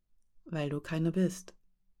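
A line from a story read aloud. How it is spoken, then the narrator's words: Soft and gentle. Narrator (German): sagte Rasch, sanft und weich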